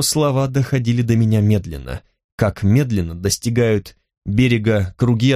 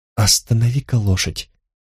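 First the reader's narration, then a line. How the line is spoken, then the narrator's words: Whispered request. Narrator (Russian): попросила я шепотом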